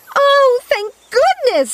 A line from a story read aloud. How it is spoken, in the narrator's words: shouted